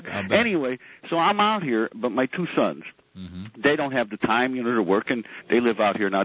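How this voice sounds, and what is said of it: Chicago accent. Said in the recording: “God, I love that Chicago accent. God, I missed that Chicago accent.”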